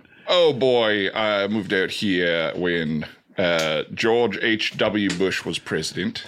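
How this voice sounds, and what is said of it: Australian accent. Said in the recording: “Am I recognizing some sort of like English accent there? ... Oh, Australian.”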